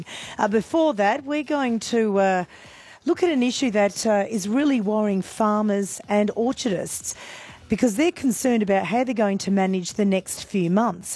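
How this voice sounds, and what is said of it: Croaky, hoarse voice. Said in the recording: “Excuse the voice, a little bit croaky this morning. That's courtesy of a lot of shouting on Friday night”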